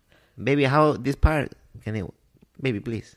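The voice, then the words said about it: Put-on Hispanic accent. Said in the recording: “I'm doing an accent right now ... It's very Hispanic at the end.”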